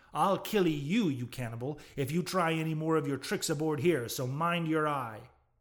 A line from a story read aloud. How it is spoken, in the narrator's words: roared the captain